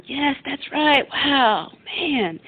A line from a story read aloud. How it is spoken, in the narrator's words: He yelling